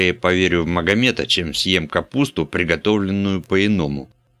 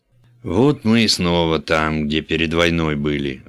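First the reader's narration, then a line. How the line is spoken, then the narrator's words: Sigh. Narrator (Russian): вздохнул пан Брых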